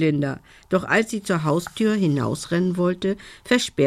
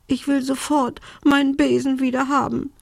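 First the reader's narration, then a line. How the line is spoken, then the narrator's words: Sobbing. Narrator (German): schluchzte Belinda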